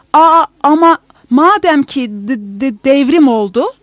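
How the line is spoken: Stammering. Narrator (Turkish): diye kekeler

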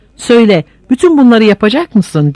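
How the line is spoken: Crying out. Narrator (Turkish): diye haykırdı Paul

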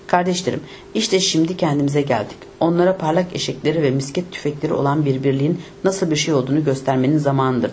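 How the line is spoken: Plain. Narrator (Turkish): dedi

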